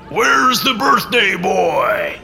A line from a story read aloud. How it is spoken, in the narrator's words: the man bellowed